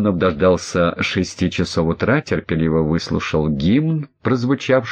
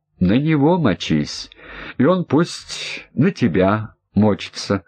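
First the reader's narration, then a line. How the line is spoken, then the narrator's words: Laughing. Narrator (Russian): рассмеялся Кононов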